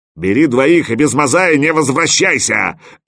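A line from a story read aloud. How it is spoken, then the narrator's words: Loud bark. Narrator (Russian): рявкнул слон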